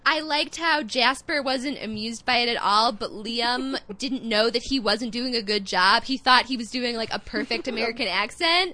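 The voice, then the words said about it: Grating nasal Midwestern accent. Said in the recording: “my grating nasal Midwestern accent, I'm actually from Chicago”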